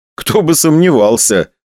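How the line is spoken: Smiling. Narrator (Russian): улыбнулся я

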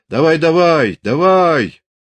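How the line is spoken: Hoarse happy shouting. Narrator (Russian): Зубарь кричал осипло и счастливо

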